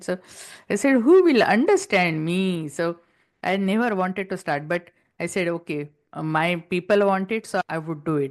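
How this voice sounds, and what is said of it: Heavy Indian accent. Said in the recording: “I still have heavy accent ... I'm the only one stuck with Indian accent”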